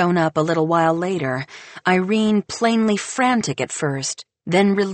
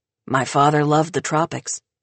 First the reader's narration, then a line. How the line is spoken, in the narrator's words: Baker murmurs